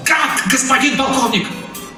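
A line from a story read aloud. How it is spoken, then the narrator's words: Desperate shout. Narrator (Russian): крикнул Замир почти с отчаянием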